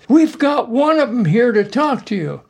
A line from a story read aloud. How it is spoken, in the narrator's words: he yelled